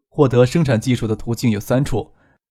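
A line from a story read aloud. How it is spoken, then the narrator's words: Smiling. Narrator (Chinese): 张可笑了笑说道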